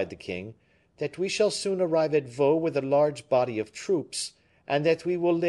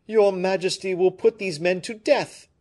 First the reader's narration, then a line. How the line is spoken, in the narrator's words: cried Fouquet